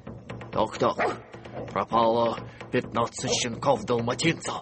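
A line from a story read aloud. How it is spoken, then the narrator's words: Mutter under breath. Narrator (Russian): пробормотал он себе под нос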